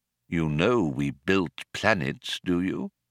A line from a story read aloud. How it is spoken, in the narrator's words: he asked solemnly